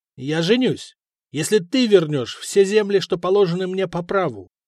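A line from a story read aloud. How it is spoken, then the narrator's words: Sharp reply. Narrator (Russian): резко ответил Дагоберт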